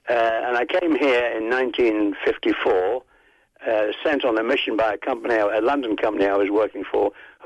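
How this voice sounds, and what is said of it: English accent. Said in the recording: “I'm an Englishman, as you may have guessed from my accent”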